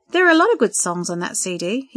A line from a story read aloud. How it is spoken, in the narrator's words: he said